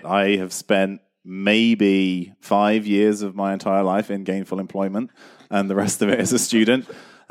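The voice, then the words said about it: Speaks with a distinctive accent. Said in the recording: “an amazing accent.”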